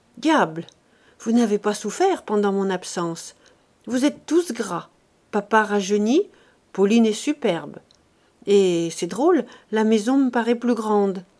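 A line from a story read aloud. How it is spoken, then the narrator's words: Smiling murmur. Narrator (French): il murmura, souriant à son tour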